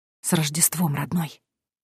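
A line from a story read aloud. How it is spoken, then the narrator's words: Silently mouthed whisper. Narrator (Russian): прошептала я одними губами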